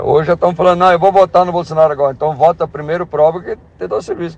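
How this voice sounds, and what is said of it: Strong Bahian Brazilian Portuguese accent. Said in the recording (Portuguese): “sotaque baiano do rapaz... Bastante acentuado... Sotaque baiano muito acentuado”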